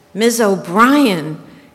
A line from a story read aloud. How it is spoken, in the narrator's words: he was shouting